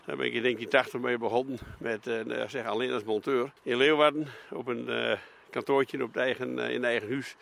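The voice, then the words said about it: Twente regional Dutch accent. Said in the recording (Dutch): “Maar ik ben een tukker, hè? ... Nee, ik ben geen Fries. Dat kun je ook wel horen, dat accent in het algemeen.”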